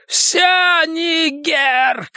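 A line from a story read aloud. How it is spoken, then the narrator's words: Shouting. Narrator (Russian): кричал Генри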